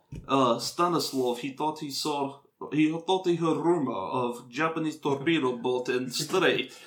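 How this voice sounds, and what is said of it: Poor put-on Russian accent. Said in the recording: “you guys cannot do a Russian accent ... my Russian accent”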